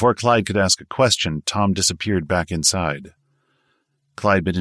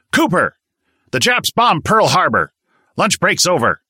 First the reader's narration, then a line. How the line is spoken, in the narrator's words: Tom O'Flannery barked